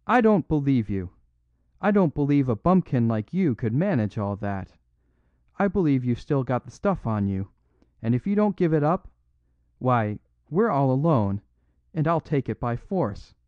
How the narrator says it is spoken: He cried

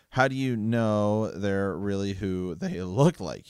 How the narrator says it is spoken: He said hoarsely

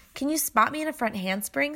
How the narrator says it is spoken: Steph asked

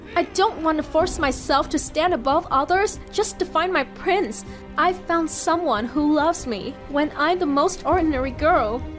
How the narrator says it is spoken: firmly told her

